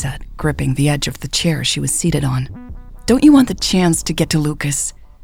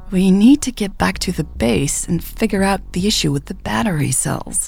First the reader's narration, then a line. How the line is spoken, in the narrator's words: Michelle said hesitantly